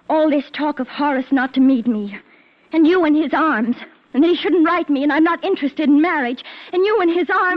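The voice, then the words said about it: Raised, agitated voice. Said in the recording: “you're raising your voice. Certainly, I'm raising my voice.”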